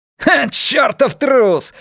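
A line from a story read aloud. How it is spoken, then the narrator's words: Yelling. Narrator (Russian): орал Андерс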